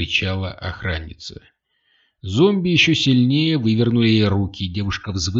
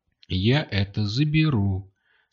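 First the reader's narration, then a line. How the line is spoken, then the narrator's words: Calm. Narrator (Russian): спокойно сказала рыжеволосая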